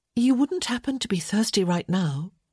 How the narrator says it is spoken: she asked in a mild voice

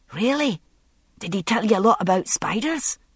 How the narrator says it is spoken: young Ian asked eagerly

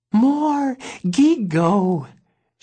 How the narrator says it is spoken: she piped

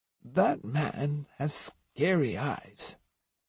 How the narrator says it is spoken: Osugi murmured

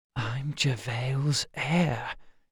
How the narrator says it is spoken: she whispered

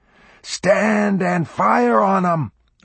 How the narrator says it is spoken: Orff roared

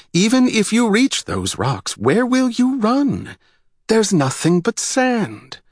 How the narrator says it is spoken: Hyla's voice sounded strong as she yelled

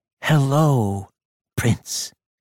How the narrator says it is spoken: said solemnly

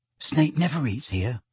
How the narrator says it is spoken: Ron told Harry quietly

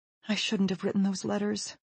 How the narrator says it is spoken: she adds anxiously

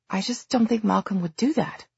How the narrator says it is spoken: Livy said in a small voice

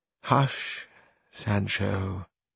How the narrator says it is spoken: said Don Quixote in a weak and faint voice

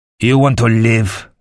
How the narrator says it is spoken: Lanfrel snarled

